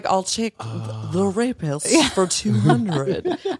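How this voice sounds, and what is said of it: Imitates another person's voice. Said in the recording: “You do a great Sean Connery impersonation.”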